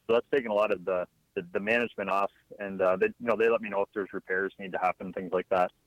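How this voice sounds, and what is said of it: Non-Southern accent. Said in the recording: “I'm detecting an accent, but it's not a Southern accent.”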